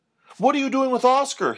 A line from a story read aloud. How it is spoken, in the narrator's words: panted